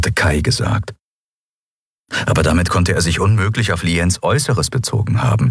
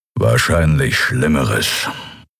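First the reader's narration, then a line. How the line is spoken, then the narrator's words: Growl from behind. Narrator (German): knurrte Kero hinter ihnen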